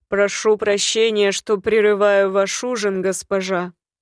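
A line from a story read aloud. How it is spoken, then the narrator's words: Loud address. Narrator (Russian): обратился громко, чтобы все присутствующие услышали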